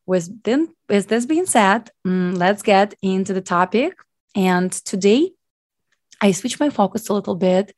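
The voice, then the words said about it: Unusually deep, strained voice. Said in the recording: “they have a virus and it's affect my vocal cords ... which is still a little deep ... I still cough sometimes to time ... my voice is too deep ... small, you know, stops in between to just take my breath”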